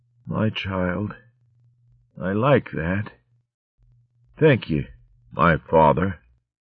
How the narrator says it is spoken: she murmured drowsily

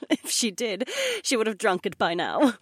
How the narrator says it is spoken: the blonde laughed

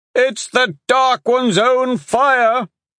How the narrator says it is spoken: one of the men bellowed

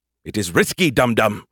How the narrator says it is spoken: he snapped

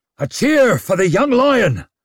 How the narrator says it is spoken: bellowed Brint

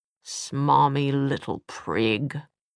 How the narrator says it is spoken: Will snarled

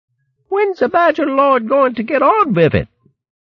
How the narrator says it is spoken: a small hedgehog squeaking aloud

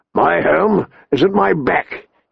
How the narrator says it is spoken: he said gruffly

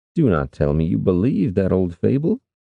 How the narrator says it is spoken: Tidon said with a chuckle

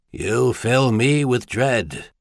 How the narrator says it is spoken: Steiner said dryly

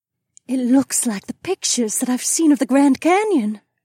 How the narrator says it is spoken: Emma said in her gentle accent

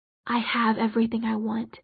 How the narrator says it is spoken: she whispered

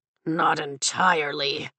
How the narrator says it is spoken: Tarn grunts

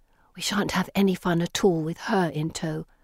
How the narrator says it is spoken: Felicity whispers bitterly

